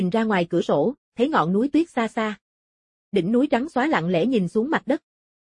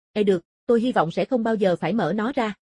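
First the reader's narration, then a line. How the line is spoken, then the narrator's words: Smiling. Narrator (Vietnamese): Giáo sư Phương Tân mỉm cười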